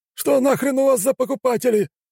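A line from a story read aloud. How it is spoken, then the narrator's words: Shout while running away. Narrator (Russian): крикнул уже убегающий аристократ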